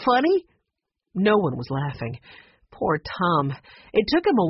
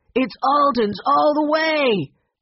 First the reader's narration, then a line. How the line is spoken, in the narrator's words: Henry shouted